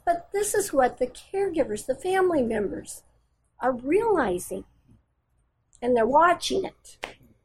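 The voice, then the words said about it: Slightly emotional voice. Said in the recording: “I get a little emotional here, I'm sorry”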